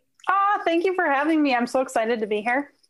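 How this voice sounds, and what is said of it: Minnesota accent. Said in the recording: “did you hear that Minnesota accent come out when I said that?”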